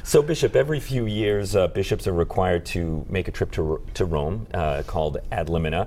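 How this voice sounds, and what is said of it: Voice sounds unwell, seasonal. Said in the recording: “Sorry for my voice. It's that time of year, so dulcet tones of ... here.”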